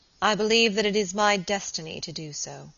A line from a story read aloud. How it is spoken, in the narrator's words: he said solemnly